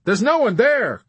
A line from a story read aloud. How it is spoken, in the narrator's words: Captain Black exclaimed cheerfully, trying to make Yossarian understand